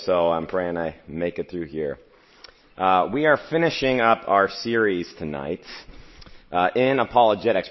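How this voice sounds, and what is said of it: Low, strained, fading voice. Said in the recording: “My voice is a little bit lower tonight... I'm losing my voice... Boy, I've got a low voice.”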